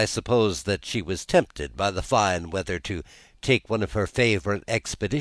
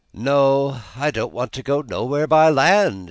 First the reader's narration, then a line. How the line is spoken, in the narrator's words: she answered gaily